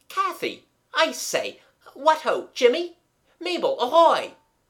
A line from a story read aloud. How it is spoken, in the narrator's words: he cried in a loud, cheerful voice that sounded very unreal to himself